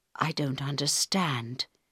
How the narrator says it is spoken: he said quietly in Harold's ear

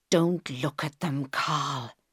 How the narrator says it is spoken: whispered

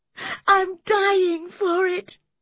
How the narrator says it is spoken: sobbed Catherine

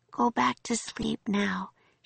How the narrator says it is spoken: she said softly

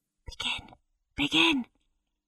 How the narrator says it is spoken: Levi Limpet, a boy who sat in the gallery, whispered to Nicholas

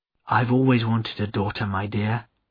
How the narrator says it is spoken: added Nancy in her gentle voice

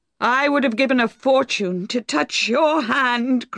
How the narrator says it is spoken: cried Boldwood wildly

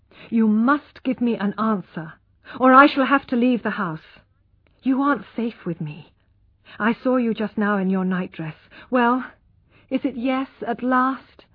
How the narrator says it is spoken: he said firmly

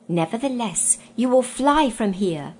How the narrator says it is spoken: he gasped

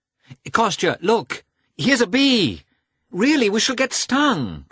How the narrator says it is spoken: cried Dolly

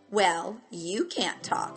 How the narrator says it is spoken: said Charlotte

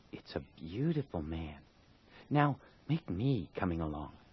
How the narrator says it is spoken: She was satisfied with the monster and whispered

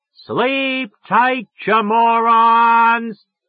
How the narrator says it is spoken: I yelled at the top of my goddamn voice

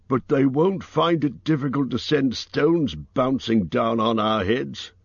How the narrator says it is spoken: grumbled Bomba

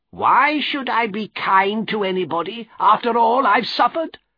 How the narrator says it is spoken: cried Miss Havisham angrily

